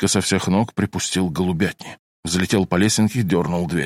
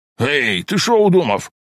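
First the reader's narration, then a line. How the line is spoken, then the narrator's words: Man yelling. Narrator (Russian): заорал бандеровец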